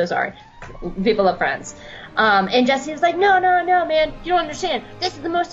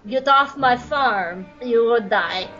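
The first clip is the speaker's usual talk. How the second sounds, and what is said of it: Bad put-on French accent. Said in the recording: “That was my terrible attempt at a French accent.”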